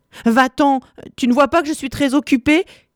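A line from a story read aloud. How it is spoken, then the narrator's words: Exasperated girl yelling. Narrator (French): hurle excédée fille cadette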